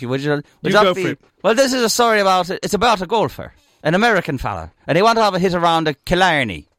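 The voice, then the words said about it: Put-on Irish accent. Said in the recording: “this is an Irish joke ... you got to tell us in an Irish accent, properly like that”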